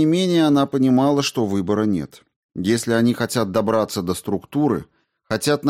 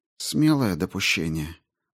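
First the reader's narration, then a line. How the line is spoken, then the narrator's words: Grumbling. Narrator (Russian): проворчала Дженсен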